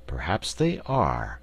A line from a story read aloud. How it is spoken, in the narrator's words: assented the wizard in a thoughtful tone of voice